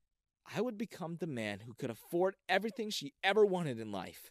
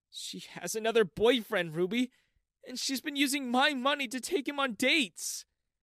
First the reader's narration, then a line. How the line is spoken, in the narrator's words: I cried on Ruby's shoulder